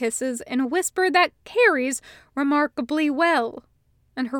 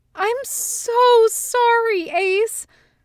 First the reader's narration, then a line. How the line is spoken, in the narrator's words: she wails